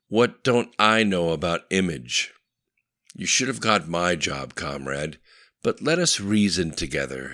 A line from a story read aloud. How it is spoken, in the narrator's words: began laughing slightly